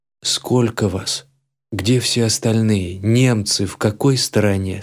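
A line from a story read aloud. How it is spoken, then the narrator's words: Calm question. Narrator (Russian): спокойно спросил я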